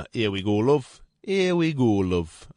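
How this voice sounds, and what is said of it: Weak attempt at Yorkshire accent. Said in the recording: “Can't do that Yorkshire accent, can I?”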